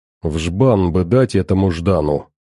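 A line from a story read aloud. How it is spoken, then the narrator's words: Toaster grumbling under breath. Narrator (Russian): под нос проворчал тостер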